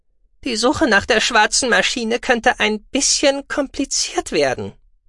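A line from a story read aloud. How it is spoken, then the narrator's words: Thin voice. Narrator (German): meldete sich Daguki mit dünner Stimme zu Wort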